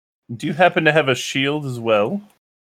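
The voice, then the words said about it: Put-on character accent. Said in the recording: “Why did I go with an accent?”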